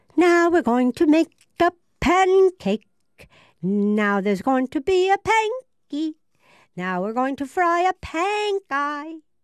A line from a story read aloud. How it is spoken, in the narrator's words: Pippi cried